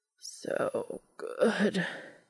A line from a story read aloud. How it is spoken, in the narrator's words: Cass groaned